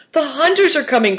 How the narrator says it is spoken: cried Christian

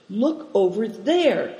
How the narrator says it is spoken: he said excitedly

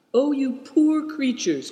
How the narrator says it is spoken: cried Seven Stars

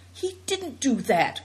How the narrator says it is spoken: cried Seven Stars excitedly

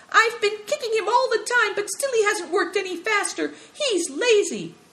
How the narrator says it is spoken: Little Yu hopped to and fro and piped

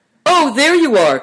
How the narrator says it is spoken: cried Uncle Chen

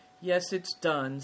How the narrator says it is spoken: sighed Good Fortune

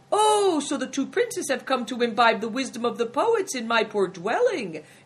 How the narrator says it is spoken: exclaimed the innkeeper with a smile

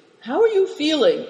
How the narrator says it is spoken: inquired Moonlight anxiously

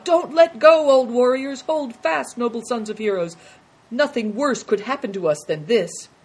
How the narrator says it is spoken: called out

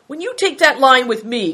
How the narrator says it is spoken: cried Good Fortune, his voice trembling with anger

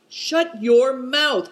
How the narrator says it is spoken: cried Good Fortune indignantly

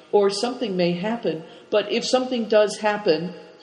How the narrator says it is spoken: begged Cao Chang

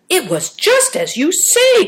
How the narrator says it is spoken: cried Dasha, astonished

